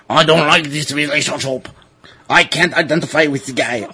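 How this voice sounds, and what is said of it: Put-on French accent. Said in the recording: “I should be saying this with a French accent.”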